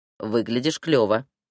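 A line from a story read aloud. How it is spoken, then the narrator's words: Smirking snort. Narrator (Russian): хмыкнул он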